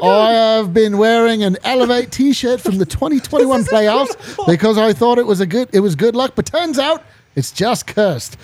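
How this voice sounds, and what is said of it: Put-on British accent. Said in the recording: “they read this in a British accent”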